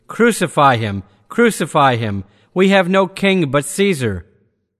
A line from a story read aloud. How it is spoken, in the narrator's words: the Jews cried out the more lustily